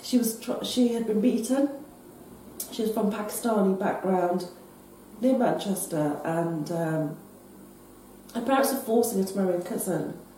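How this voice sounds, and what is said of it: Strained, failing voice. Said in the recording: “my voice is going today.”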